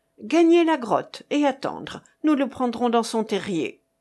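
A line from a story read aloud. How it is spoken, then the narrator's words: Brisk, quick. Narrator (French): dit vivement Jahoua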